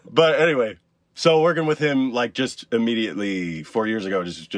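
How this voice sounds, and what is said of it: Usual voice. Nothing is said of it.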